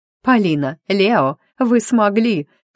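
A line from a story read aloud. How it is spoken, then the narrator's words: Sobbing. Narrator (Russian): всхлипнула Алена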